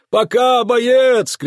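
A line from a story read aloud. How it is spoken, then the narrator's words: Shouted in chorus. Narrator (Russian): кричали они хором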